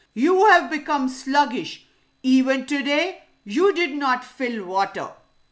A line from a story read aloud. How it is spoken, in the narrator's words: the lion became angrier, he shouted and said to her